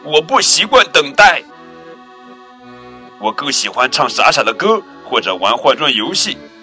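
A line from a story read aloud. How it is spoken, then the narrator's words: Sudden roar. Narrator (Chinese): 熊猫忽然吼叫起来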